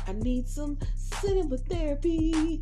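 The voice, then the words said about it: Bad jazz-style singing impression. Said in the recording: “my whack jazz impression... God, that was awful.”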